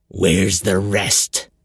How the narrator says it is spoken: the pirate asked, his voice filled with gravel

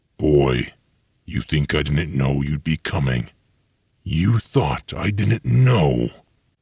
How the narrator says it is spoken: Weir wheezed

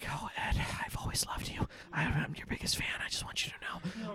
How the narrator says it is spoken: little whispers in your ear just saying

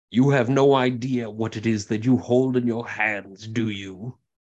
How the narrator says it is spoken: another cackling comes forward and says

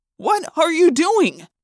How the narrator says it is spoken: Jake yelled

